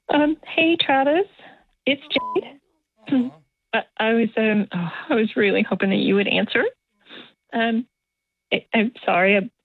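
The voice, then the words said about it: Tearful, strained voice after crying. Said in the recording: “I sound terrible. I've been crying.”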